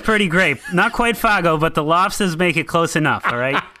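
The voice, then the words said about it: Put-on Boston accent. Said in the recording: “You gotta say that with a Boston accent.”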